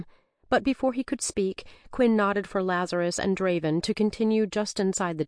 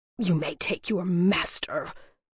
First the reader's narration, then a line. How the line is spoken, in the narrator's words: Persinius spat the intolerable word